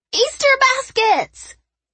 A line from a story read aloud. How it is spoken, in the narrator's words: Her squeals bounced off the walls